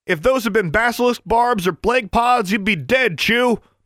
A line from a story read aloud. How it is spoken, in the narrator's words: barked Miss Shirtliff